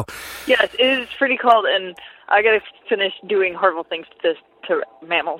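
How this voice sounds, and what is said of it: Congested, runny-nose voice. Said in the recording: “you sound like your nose is running from it being so cold.”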